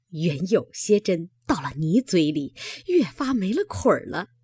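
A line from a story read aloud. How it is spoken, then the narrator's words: Laughing. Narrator (Chinese): 那鲍二家的 笑道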